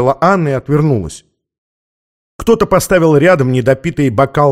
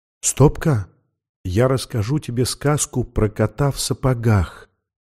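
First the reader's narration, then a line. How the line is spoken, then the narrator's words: Whisper. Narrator (Russian): шепнула она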